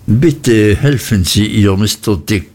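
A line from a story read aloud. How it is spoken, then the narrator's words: Plain. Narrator (German): sagte Traddles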